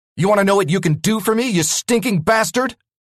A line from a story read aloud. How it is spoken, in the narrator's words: I shouted